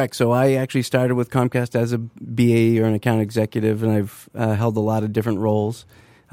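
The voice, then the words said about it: New England accent, long A vowels. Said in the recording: “I heard a Boston accent. ... I'm from Maine. ... I heard that long A ... not the flat Midwestern E.”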